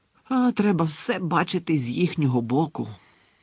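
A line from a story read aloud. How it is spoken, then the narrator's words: Heavy sigh. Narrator (Ukrainian): тяжко зітхнув Гегрід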